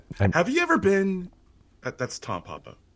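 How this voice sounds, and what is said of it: Imitates another person's voice. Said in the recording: “your Tom Papa impression ... That's my Tom Papa.”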